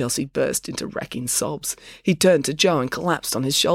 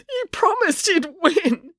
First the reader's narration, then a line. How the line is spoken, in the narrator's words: wailed